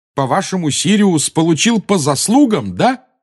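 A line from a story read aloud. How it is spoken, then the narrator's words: Yelling. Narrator (Russian): завопил Гарри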